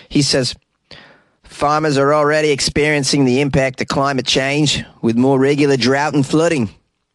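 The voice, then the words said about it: Put-on New Zealand accent. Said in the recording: “How about that for a New Zealand accent?”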